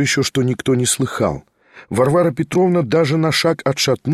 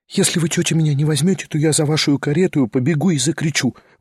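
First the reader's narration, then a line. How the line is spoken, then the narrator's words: Quick desperate whisper. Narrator (Russian): быстро и отчаянно прошептала она совсем на ухо Варваре Петровне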